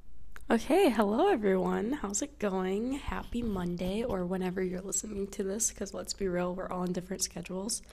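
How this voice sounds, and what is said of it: Slightly off, just-woken voice. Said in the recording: “my voice is a little bit off today because I literally just woke up like a half an hour ago”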